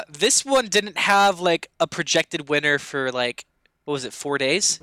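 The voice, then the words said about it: Speaking too loudly. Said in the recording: “turn your input down a little bit ... I'm talking so loud ... we don't want you too loud”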